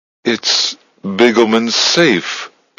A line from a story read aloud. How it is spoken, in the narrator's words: Susan stammered in awe